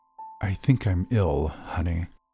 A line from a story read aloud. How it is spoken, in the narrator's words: says in a defeated tone